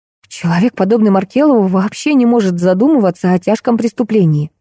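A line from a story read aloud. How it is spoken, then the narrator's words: Exclamation. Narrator (Russian): воскликнула я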